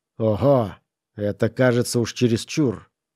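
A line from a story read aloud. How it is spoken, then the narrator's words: Sharp outburst. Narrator (Russian): резко вырвалось у него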